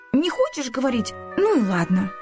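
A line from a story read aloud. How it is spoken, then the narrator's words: Offended. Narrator (Russian): обиженно сказала Ника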